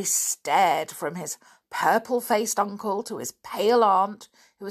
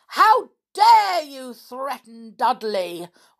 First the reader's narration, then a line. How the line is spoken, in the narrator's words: roared Uncle Vernon